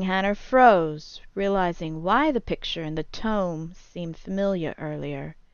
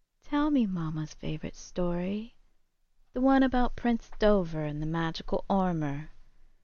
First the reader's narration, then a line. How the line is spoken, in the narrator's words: sleepily yawned and whispered